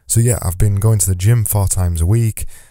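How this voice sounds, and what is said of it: Strained, failing voice. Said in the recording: “excuse my voice today because it's going. It is seriously going. I can't make it come back. ... you'll hear my voice starting to trail off, and then I'm coughing off mic”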